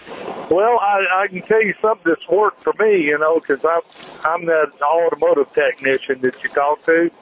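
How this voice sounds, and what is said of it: Texan accent. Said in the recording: “Where's that accent from? ... Fort Worth, Texas. ... I can tell it.”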